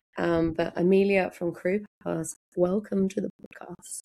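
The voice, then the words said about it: Slightly husky voice from illness. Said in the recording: “I am still a little bit sick... I managed to catch the bug going round... it's back, but it's a little bit husky, so a little bit sexy... I've got a little bit of a husk going on at the moment”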